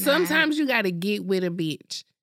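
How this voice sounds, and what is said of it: Unusual, affected-sounding accent. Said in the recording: “this weird accent I use”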